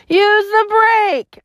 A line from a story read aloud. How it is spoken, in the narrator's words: I cried